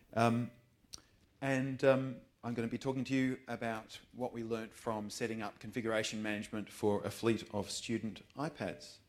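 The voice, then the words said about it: Australian accent. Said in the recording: “you can probably tell from my accent that I am indeed Australian”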